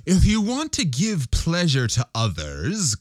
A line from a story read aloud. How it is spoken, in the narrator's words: cried the Roman candle